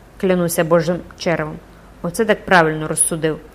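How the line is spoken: Schoolboy exclaiming. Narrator (Ukrainian): вигукнув зі свого кутка школяр Жан Фроло Вітряк

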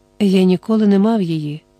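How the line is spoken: Calm reply. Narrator (Ukrainian): спокійно відказав Квін

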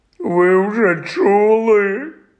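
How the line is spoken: Moaning. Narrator (Ukrainian): простогнав він

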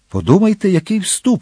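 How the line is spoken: Exclaimed. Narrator (Ukrainian): вигукнув єзуїт

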